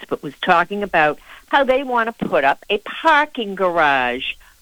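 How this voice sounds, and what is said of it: Boston accent. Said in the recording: “that was my Boston accent coming out”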